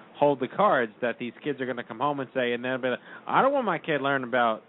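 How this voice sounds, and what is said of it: Put-on Texas accent. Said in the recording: “I just did a Texas accent.”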